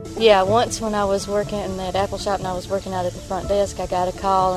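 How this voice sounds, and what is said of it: Appalachian accent. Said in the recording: “We want to hear your voice. We need an Appalachian accent.”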